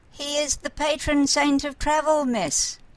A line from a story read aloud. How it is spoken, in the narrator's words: he said in a quavery voice